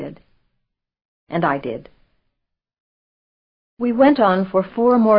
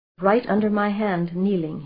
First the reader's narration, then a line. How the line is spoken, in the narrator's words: he said